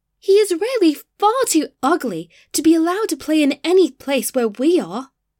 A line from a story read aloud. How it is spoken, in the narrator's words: cried the tulips